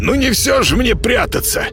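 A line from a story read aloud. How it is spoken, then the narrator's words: Hoarse cat. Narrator (Russian): прохрипел кот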